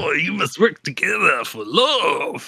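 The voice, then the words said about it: Over-the-top almost-French accent. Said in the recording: “he's got almost a French accent ... he's over the top”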